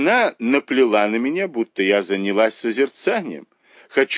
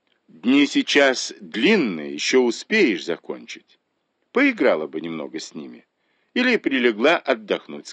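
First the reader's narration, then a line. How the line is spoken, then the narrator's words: Plain. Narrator (Russian): сказал он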